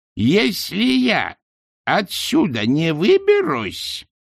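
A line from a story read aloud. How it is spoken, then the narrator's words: Ringing warning voice. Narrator (Russian): звенящим голосом предупредила матушка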